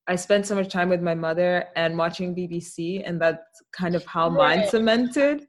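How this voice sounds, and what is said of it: Refined Afro-British accent. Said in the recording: “your accent is so identifiable to me as a mix of African and something English, like American ... Afro-British ... A little bit, like a very refined ... South African”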